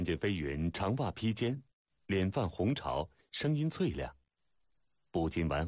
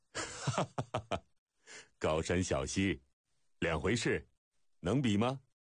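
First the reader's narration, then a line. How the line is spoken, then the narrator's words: Hearty laughter. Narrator (Chinese): 张毅大笑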